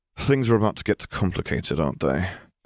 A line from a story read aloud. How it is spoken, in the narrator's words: Harry groaned